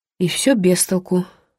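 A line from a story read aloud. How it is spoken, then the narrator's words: Sighing. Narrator (Russian): вздохнула Эллинор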